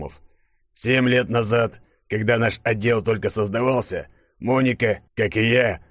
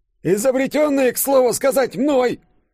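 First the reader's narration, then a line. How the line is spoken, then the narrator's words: Squeaky, muffled from below. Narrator (Russian): пропищал профессор Лыков из-под стола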